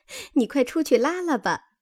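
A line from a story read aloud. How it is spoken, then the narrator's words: Laughing. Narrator (Chinese): 袭人因笑说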